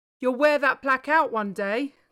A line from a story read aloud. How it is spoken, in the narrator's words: Carl called out